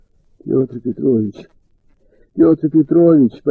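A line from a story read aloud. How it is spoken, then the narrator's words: Lost, dazed whisper. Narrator (Russian): потерянно шептал Женька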